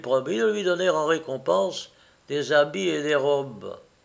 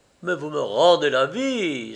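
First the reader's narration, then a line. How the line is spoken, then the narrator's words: Elated exclamation. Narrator (French): s'écria le monarque, transporté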